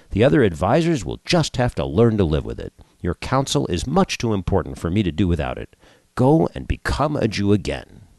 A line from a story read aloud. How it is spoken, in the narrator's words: the king said